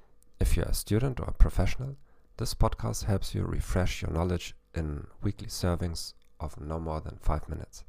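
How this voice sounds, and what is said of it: German-accented English. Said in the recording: “with a German accent ... I'm not an expert in English, though.”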